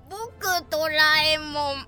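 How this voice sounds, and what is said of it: Doraemon cartoon character voice impression. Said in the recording (Japanese): “鍋さんのドラえもんの声真似”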